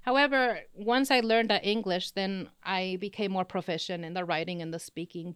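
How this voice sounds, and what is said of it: Slight Spanish accent. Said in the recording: “you have a little bit of a Spanish accent”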